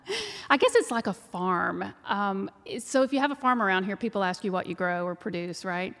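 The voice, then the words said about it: Texas twang. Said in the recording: “So you can tell by the twang that I'm from Texas.”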